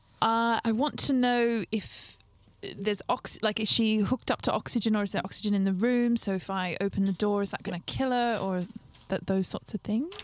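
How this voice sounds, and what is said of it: Speaks in a put-on accent. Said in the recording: “I should get back my accent back on in the hubbub before I lost it.”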